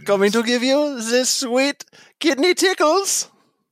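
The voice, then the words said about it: Weak put-on French accent. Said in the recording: “my only French accent is the ha ha ha wee wee. That's all I can do.”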